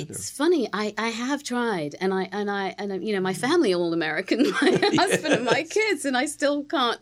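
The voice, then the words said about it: British accent. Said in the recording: “you still retain this beautiful British accent.”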